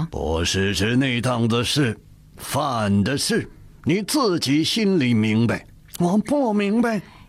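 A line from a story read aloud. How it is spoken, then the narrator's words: Stern, harsh. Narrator (Chinese): 鄂善厉声说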